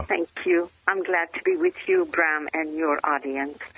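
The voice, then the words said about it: French-Canadian accent, European-sounding. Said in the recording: “your accent. It is unique and European in nuance, but it's not from Europe ... I'm French-Canadian”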